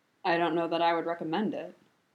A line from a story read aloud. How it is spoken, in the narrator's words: Kakashi said dryly